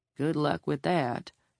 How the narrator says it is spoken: the judge murmured

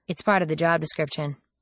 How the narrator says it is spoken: I said dryly

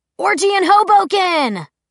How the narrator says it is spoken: Clary heard someone, probably Eric, yell

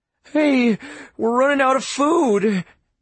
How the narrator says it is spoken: Andrew whined

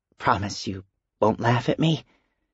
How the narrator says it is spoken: timidly, and asked

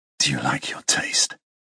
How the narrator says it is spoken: He whispers against my lips

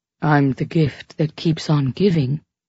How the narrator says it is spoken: Juan murmured tantalizingly against my cheek

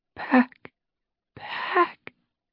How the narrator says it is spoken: she whispered

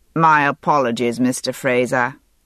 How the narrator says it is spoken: he said dryly

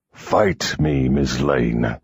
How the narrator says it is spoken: he growled without the aid of voice

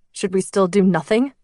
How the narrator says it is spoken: Chris asked, his voice shaking

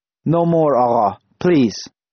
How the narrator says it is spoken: he said, his voice husky and trembling

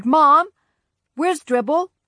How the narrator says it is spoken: hollered

